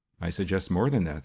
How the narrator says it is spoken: said the other quickly

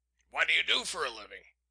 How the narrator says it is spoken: he sharply demanded

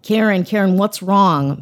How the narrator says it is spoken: Marion shouted

